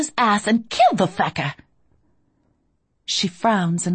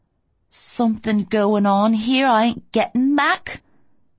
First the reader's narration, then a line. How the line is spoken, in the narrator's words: she says tightly